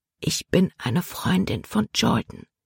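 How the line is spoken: Whispered. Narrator (German): flüsterte Libby

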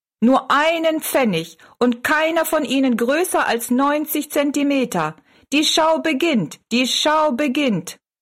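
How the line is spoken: Call. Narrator (German): rief er Rosalie zu

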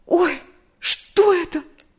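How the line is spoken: Frightened cry. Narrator (Russian): В испуге вскрикнула Нэнси

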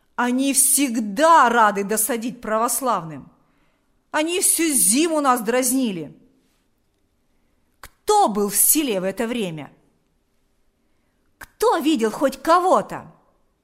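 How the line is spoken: Shout. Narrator (Russian): закричал Шила

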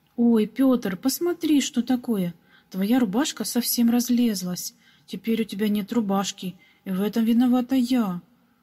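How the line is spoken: Sudden regretful exclamation. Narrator (Russian): Вдруг с сожалением воскликнула маленькая прачка

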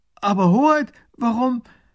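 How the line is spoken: Minister's call. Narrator (German): Der erste Minister ruft

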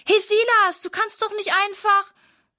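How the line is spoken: Calling after someone. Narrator (German): ruft Sarah ihm hinterher

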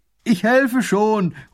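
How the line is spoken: Calling from afar. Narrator (German): ruft er von Weitem

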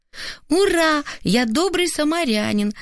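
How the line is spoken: Joyful shout. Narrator (Russian): радостно крикнул сын

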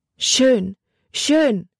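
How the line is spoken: Called, heavy accent. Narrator (German): rief sie mit einem starken Akzent

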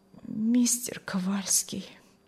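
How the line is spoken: Strained, barely forced out. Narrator (Russian): еле выдавила она из себя

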